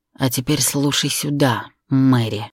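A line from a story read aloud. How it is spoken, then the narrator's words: Angry, through clenched teeth. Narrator (Russian): гневно процедил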